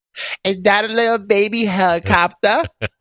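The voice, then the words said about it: Baby voice with Boston accent. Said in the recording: “Apparently my impersonation of a baby is from Boston.”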